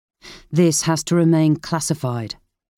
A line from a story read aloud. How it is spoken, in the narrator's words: Brownrigg said firmly, his expression serious